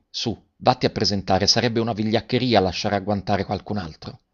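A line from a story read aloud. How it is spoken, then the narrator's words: Quiet speech. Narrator (Italian): disse piano a Garoffi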